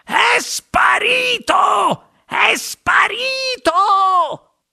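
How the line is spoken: Wide-mouthed shout. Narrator (Italian): spalancò una gran bocca rossa e gridò

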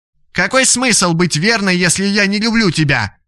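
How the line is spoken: Shouting out. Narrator (Russian): выкрикнула Лилия

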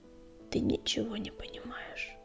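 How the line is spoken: Barely audible whisper. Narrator (Russian): еле слышно прошептала Пепелица

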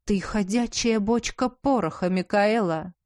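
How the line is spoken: Hissed, duchess. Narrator (Russian): зашипела герцогиня

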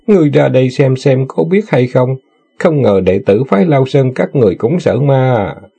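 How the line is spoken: Laughing, mocking. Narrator (Vietnamese): Người đó bật cười rồi nói

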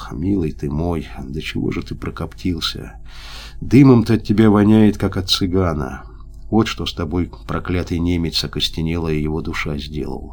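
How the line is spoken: Indistinct whisper. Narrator (Russian): Звягинцев невнятно прошептал

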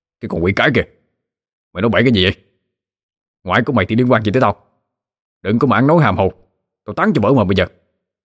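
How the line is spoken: Guilty defensive shout. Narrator (Vietnamese): gã chột dạ quát lên

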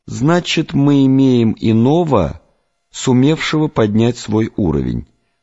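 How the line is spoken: Plain. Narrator (Russian): сказал Завулон

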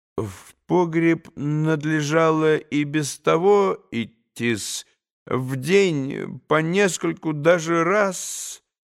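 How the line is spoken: Slow drawl. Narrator (Russian): не спеша протянул Смердюков

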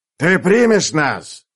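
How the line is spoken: Loud question. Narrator (Russian): спросил он громко

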